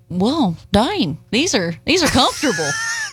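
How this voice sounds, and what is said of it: Imitates another person's voice. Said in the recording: “That's an accurate impression. ... I cleaned it up a little bit for that impression”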